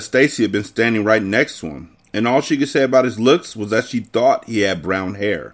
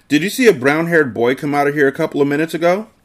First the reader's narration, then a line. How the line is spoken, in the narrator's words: I gasped